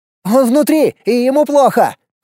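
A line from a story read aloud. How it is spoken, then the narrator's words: Shout. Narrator (Russian): крикнул Костя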